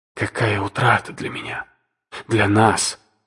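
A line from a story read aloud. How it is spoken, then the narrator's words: Magnanimous self-correction. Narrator (Russian): великодушно поправилась она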